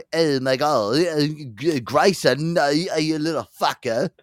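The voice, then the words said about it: Imitates another person's voice. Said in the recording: “Todd Chrisley impression ... Starts out Texan”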